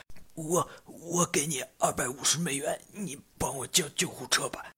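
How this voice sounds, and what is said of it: Weak, faltering, near-dying voice. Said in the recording (Chinese): “他是用那种虚弱的、快不行了、快挂了的声音说”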